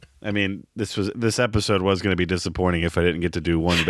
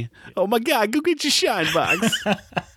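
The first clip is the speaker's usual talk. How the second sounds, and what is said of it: Imitates another person's voice. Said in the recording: “bad Travolta impression”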